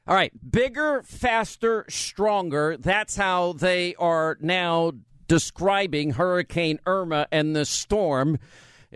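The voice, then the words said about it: Thick New York accent. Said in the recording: “she's got a thick New York accent. ... Yeah, it's pretty thick.”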